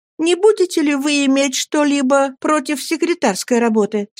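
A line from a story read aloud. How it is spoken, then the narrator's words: Kind, encouraging question. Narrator (Russian): спросила Агнеса таким ласковым, подбадривающим голосом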